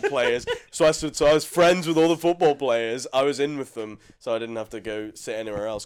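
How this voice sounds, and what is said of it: Northern Irish accent. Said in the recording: “I had my Northern Irish accent... say shit in my Northern Irish accent”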